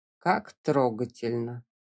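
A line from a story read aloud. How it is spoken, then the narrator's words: Drawled. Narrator (Russian): протянул Вуайль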